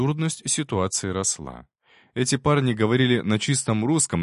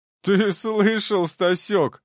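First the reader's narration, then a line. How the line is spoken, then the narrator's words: Laughing. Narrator (Russian): рассмеялся один из парней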